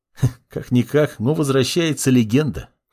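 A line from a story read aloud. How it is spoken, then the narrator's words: Young man's smirking grunt. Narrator (Russian): хмыкнул парень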